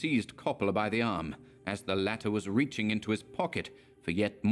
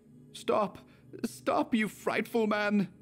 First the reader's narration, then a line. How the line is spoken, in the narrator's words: Overcome by mad terror, he shrieked